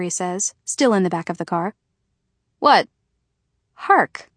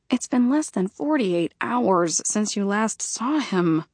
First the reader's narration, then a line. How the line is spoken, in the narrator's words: I mutter to myself, not quite able to bite back a smile